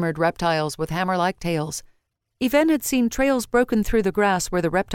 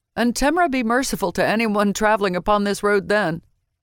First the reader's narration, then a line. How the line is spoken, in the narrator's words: Ardal added with a laugh